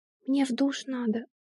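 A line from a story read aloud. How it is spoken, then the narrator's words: Barely audible mumble. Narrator (Russian): бормочет еле слышно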